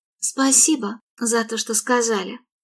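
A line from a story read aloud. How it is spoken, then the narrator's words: Whispered. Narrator (Russian): шепнула Мередит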